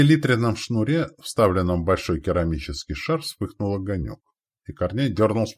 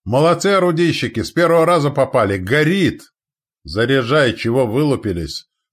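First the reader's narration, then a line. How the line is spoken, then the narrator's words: Barked. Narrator (Russian): рявкнул своим Корней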